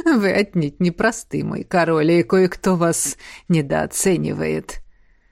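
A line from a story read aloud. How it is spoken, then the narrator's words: Laughing. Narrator (Russian): рассмеялся Фьер Холли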